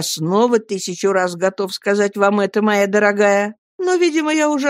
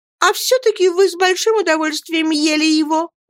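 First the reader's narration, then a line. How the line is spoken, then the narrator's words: Sobbing. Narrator (Russian): рыдала Дора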